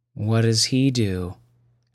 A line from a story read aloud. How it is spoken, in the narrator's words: asked Eric, wearily